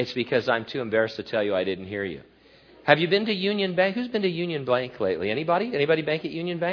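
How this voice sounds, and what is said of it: Usual voice. Nothing is said of it.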